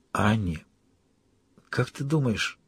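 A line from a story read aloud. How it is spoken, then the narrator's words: Barely audible, breaking off. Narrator (Russian): Еле слышно произнес и осекся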